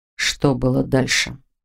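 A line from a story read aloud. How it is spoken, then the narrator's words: Calm repeated question. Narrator (Russian): спокойно переспросил Норман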